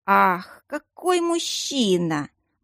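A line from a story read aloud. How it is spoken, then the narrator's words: Relaxed purring. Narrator (Russian): мурлыкнула совершенно расслабившаяся стихийница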